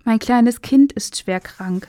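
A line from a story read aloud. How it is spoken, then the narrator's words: Plain. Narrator (German): sagte sie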